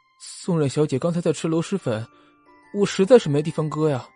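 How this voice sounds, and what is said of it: Timid quiet mumbling. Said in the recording (Chinese): “弱弱的举着手……小声的嘟囔说”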